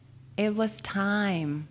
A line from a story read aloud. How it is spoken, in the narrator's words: knowledge answered